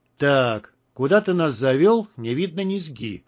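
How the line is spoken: Gloomy pronouncement. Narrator (Russian): мрачно изрек Герман

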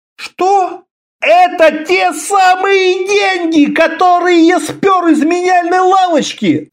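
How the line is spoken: Yelling. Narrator (Russian): заорал Конан

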